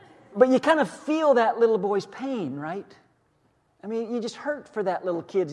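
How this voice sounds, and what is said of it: Usual voice. Nothing is said of it.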